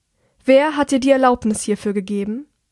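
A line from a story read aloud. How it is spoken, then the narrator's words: Loud but calm, controlled. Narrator (German): Obwohl sie sehr laut spricht, ist ihr Tonfall ruhig und beherrscht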